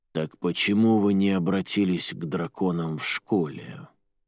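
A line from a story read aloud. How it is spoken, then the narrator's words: Softer male voice. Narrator (Russian): Другой мужчина, голос у него был мягче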